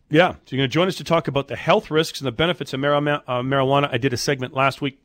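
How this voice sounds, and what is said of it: Congested, stuffy-nosed voice. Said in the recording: “I'm still congested. You can probably hear it in my voice.”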